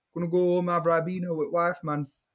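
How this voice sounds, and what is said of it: Put-on vaguely Caribbean accent. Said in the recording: “What accent exactly was that? ... nice maybe Jamaica ... I think he's from Barbados or something”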